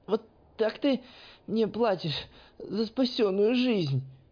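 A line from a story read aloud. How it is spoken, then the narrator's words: Hoarse wheeze after coughing. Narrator (Russian): прохрипела наконец Искра после серии болезненных хрипов и покашливаний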